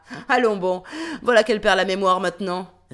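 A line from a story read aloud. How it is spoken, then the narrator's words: Sneering. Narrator (French): ricane-t-il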